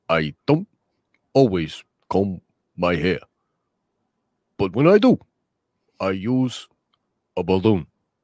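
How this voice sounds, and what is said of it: Imitates another person's voice. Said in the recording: “my Bernie Sanders impersonation”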